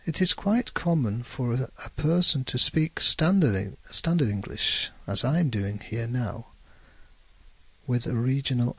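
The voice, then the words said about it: Northern English accent. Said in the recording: “My accent is a Northern English accent.”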